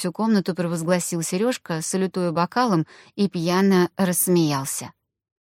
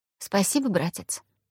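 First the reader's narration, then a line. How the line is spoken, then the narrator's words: Quiet reply. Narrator (Russian): тихо ответила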